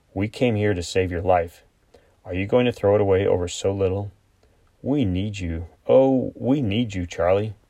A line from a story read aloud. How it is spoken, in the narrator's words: said, it was only a little more than a whisper